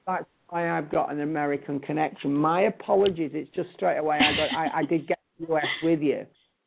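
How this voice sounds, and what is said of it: British accent. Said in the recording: “I love the accent. It's just fabulous. ... the Americans love the British accent”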